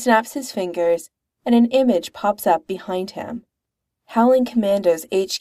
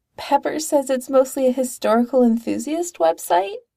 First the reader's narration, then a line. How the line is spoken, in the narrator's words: Roger says feebly